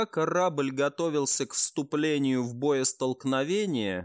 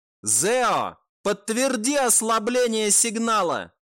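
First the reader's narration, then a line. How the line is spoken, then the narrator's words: Sudden shout. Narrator (Russian): девушка неожиданно прокричала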